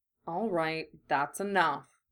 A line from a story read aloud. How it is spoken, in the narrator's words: Kurama muttered